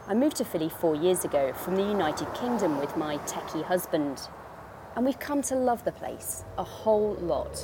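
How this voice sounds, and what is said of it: British English accent. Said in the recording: “As you can tell from the accent, I wasn't born anywhere near Francisville”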